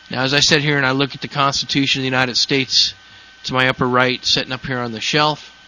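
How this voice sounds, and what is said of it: Slightly rough, congested voice. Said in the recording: “You can hear my voice is a little messed up. I got a cold today. ... I probably sound like an angry white guy.”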